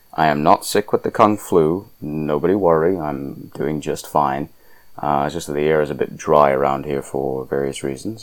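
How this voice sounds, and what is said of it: Croaky, slightly congested voice. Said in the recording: “I sound a little croaky ... my nasal passages seem to be a bit irritated and congested”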